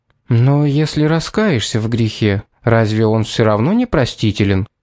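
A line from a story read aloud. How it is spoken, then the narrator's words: Quiet question. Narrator (Russian): тихо спросила Шарлотта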